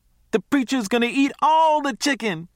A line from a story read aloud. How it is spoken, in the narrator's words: bawled